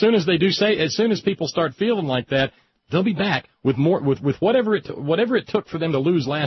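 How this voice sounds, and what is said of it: Usual voice. Nothing is said of it.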